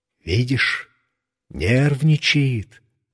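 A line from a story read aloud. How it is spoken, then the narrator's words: Whispered explanation. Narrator (Russian): шепотом объяснил дядя Гоша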